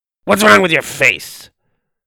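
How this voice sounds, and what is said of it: Rough, gruff old woman's voice. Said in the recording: “in her rough voice”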